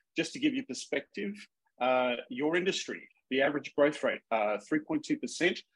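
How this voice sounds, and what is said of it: Minnesota accent, very fast speech. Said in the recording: “I talk really, really fast ... excuse my Minnesota accent”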